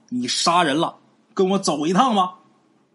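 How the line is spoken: Shouting. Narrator (Chinese): 这些个巡街小吏就喊呐

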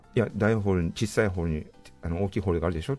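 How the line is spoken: Plain. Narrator (Japanese): って言ったら

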